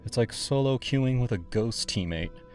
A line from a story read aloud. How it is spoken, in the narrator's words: sigh